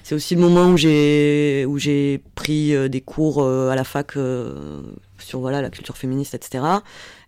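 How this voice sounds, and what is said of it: Southern French Toulouse accent. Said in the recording (French): “je peux guère le cacher avec l'accent. Oui, j'étais au Mirail”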